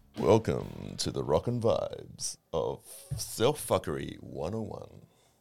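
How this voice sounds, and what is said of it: Put-on radio announcer voice. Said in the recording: “That was my best radio voice.”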